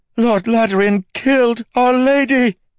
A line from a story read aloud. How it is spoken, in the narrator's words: The woman ran away screaming the words over and over